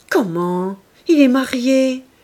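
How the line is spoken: Exclaiming. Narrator (French): s'écria Clorinde

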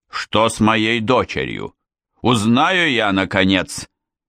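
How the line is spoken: Angry bark. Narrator (Russian): рявкнул Несбит

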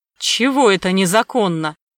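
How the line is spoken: Snapped. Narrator (Russian): огрызнулся Сомов

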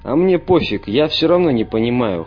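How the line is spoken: Snorting. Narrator (Russian): хмыкнул швед

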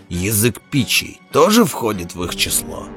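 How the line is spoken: Growled from the doorway. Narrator (Russian): прорычал от двери Белвар

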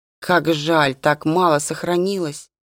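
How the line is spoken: Melancholy mutter. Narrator (Russian): тоскливо пробормотал Джейкоб

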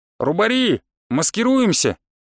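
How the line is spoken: Shout. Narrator (Russian): крикнул я

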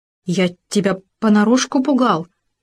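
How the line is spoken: Stammering excuse. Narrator (Russian): запинаясь, оправдывался суслик

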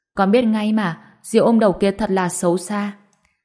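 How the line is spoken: Understanding mutter. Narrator (Vietnamese): Túc Bảo hiểu được, lẩm bẩm nói

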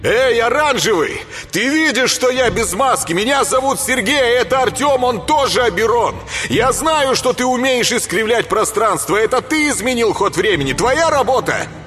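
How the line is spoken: Shouting while running. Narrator (Russian): Кричал на бегу черный заяц

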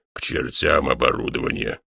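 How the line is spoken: Irritated snort. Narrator (Russian): раздраженно фыркнул ГМ

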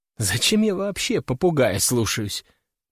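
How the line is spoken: Muttering. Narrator (Russian): пробормотала она

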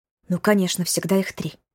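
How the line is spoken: Whisper into emptiness. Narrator (Russian): шепнула в пустоту

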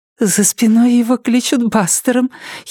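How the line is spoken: Giggling. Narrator (Russian): хихикнула Нетти

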